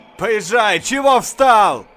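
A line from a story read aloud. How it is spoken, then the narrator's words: Shout while coughing. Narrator (Russian): Скрикнул закашлявшись доктор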